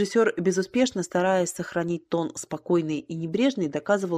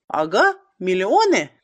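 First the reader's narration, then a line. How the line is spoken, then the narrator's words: Shouting in someone's face. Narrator (Russian): кричал комик в лоб режиссера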